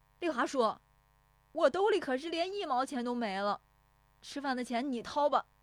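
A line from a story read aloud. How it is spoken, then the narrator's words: Shouting while chasing. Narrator (Chinese): 石有福撵着喊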